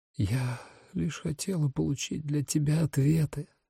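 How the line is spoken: Female whisper. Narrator (Russian): прошептала она

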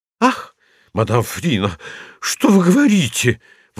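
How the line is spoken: Exclaiming. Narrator (Russian): воскликнула пуделиха

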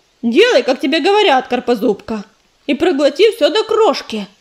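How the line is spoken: Stern shout. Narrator (Russian): сурово прикрикнула мотылинка

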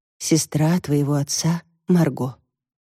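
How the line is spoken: Quiet, mother. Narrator (Russian): тихо ответила мать

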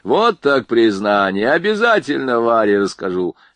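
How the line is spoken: Laughing. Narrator (Russian): смеялся Борейко

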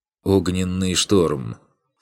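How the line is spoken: Calm voice. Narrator (Russian): Спокойным голосом произносит в канале магов Риис

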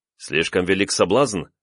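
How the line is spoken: Snorting. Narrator (Russian): вновь хмыкнул я

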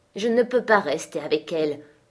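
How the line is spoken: Gruff reply. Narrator (French): répondit-il d'un ton bourru

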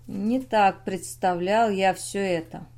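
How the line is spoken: Muffled hollow utterance. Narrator (Russian): он глухо вымолвил

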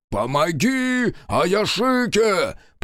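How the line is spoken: Growled. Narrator (Russian): прорычал Соба

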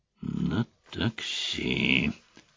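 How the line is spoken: Warrior muttering. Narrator (Russian): пробормотал воин

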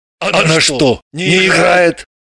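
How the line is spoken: Confused question. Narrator (Russian): Граблин и Чех растерянно друг друга спросили

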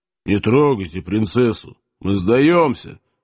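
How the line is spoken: Muffled, flat. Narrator (Russian): глухо оповестил казак

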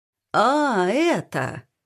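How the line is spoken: Falsely drawn out, improvising. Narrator (Russian): фальшиво протянул Игорь, словно на ходу придумывая

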